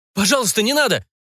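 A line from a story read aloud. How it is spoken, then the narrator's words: Sobered man's sharp cry. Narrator (Russian): вскрикнул протрезвевший Эд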